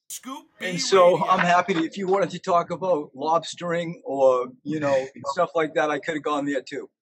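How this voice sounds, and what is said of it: New England accent. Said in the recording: “you have a New England accent”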